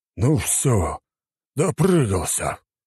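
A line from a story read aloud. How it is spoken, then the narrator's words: Exhaling. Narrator (Russian): выдохнул наместник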